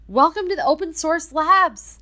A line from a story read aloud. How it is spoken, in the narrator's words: Emily excitedly said